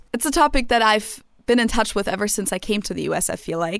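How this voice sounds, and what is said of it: German accent. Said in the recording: “they're kind of confused by my name or by my accent ... I'm German”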